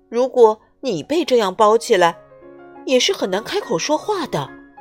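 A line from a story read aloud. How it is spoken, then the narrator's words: Strained muffled shouting. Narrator (Chinese): 嗯嗯嗯，小小先生吃力的叫喊着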